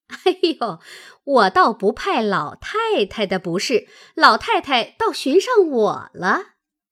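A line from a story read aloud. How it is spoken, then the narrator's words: Laughing. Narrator (Chinese): 凤姐儿笑道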